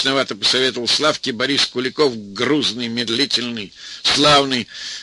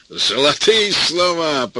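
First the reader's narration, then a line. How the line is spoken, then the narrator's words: Booming drone. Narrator (Russian): прогудел Борис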